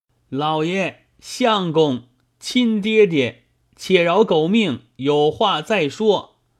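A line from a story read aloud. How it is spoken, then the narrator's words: Frantic pained cries. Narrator (Chinese): 玄玄子 打得口里乱叫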